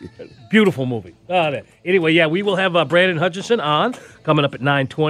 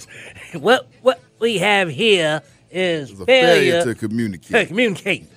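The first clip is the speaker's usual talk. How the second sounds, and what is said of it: Imitates a movie character's voice. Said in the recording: “I saw Cool Hand Luke yesterday. So that's what I'm doing his voice.”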